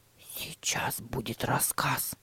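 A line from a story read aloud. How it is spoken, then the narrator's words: Whisper. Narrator (Russian): прошептал Тима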